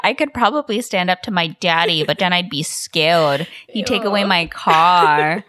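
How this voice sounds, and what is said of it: Sexy baby voice. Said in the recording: “that's my sexy baby voice”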